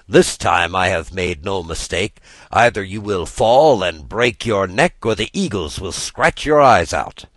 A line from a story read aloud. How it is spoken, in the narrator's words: laughed Mishosha